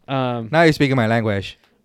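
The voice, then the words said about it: Put-on Latino accent. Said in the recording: “That was a Latino accent.”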